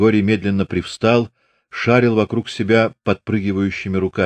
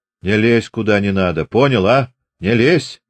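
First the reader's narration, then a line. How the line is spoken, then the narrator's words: Stern repetition. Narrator (Russian): строго повторил Чубатый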